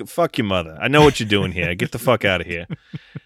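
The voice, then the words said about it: Put-on New Jersey accent. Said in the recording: “you start talking in a New Jersey accent”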